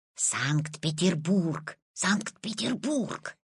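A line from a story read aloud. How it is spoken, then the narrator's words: Old man whispering. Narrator (Russian): зашептал Петин прапрадедушка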